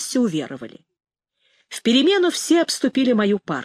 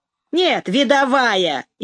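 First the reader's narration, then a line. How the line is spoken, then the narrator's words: Snide remark. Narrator (Russian): ехидно заметил Ромка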